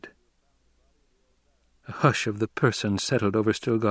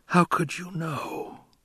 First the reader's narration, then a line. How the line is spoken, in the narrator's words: he whispered